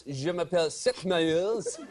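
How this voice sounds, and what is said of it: Put-on French accent. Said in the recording (French): “No, with the French accent”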